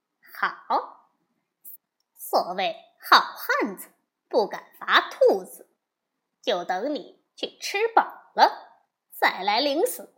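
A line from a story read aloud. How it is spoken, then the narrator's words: Laughing. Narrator (Chinese): 悟空笑说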